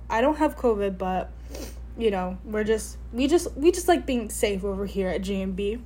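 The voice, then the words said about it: Sick, congested-sounding voice. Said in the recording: “I have a cold ... I just have a cough”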